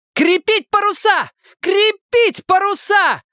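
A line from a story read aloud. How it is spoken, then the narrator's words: Urgent yelling. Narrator (Russian): заорала на палубе Рейнольдс, поняв, что они могут сесть на мель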